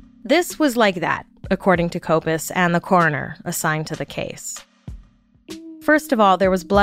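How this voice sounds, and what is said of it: Usual voice. Nothing is said of it.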